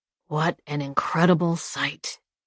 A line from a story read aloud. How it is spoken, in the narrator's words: the old man murmured